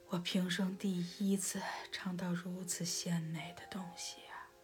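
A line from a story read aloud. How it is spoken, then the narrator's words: Deeply moved exclaiming. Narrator (Chinese): 国王……大有感叹地说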